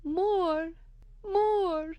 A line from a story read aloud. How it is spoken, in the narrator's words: cries